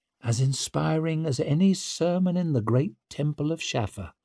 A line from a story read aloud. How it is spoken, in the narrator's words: murmured Zuri